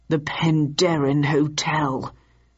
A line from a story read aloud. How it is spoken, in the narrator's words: announced Victor grimly